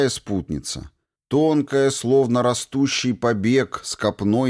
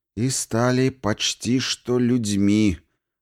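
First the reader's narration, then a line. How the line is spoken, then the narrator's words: Woman grumbling with disgust. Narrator (Russian): брезгливо проворчала женщина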